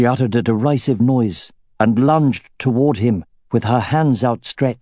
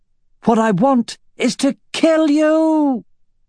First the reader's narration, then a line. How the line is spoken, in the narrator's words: she shouted toward the ceiling